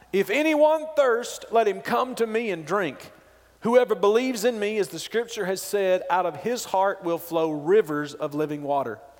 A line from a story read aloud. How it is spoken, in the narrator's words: Jesus stood up and cried out